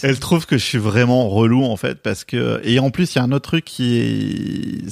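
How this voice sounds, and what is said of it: Bordeaux regional French accent. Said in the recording (French): “j'ai un accent bordelais pour tout le monde, je sais que ça choque ... Je dis rose, chauve, jeune.”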